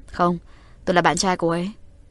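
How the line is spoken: Smiling. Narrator (Vietnamese): Uông Nhất Sơn mỉm cười

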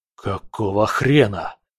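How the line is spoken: Whisper. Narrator (Russian): прошептал Виктор

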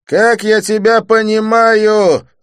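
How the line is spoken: Yelling. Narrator (Russian): заорал он

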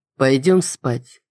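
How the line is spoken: Soft. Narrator (Russian): проговорил он мягко

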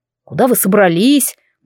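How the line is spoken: Stern borrowed voice. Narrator (Russian): голосом Кайвина строго спросила я

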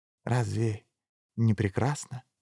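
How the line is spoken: Breathed out in awe. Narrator (Russian): выдохнул профессор

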